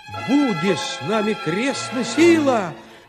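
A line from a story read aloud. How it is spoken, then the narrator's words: Shout. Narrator (Russian): закричал тогда Гаврила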